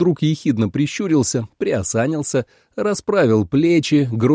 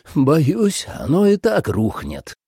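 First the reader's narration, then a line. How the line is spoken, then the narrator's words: Sighing. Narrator (Russian): вздохнул Кофа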